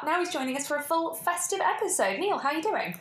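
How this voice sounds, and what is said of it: Formal, official-sounding phone voice. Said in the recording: “you do like a phone voice. You're like very like, you're just like ringing someone really official”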